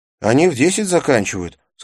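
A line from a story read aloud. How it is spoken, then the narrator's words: Plain. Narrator (Russian): сказал Навин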